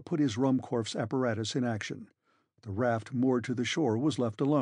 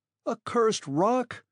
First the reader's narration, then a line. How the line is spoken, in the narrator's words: I cried in a passion, finding myself suddenly confronted by an impassable obstacle